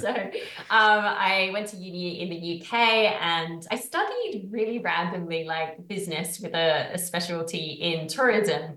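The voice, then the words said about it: Speaks with a UK accent. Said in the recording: “I'm from the UK. Sometimes my accent confuses people.”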